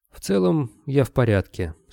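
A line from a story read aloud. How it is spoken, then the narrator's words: Calm statement. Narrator (Russian): спокойно произнес он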